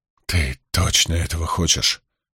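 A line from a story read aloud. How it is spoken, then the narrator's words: Quiet question. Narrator (Russian): тихо спросил Спартак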